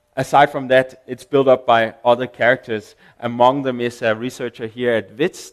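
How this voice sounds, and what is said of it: Foreign accent in English. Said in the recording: “you can hear on my accent that I'm a foreigner”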